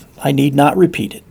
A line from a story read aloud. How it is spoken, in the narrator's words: sighed the son